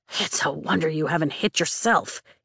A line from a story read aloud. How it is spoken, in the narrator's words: he mutters